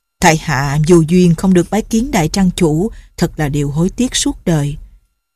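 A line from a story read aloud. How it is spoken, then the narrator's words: Old man's resigned sigh. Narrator (Vietnamese): Lão đành thở dài nói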